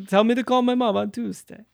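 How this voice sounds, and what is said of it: Terrible put-on Yiddish accent. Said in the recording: “Really bad Yiddish accent. Yeah, terrible Yiddish accent.”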